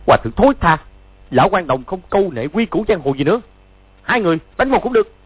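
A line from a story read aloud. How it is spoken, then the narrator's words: Furious shout. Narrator (Vietnamese): Chu Bá Thông cả giận quát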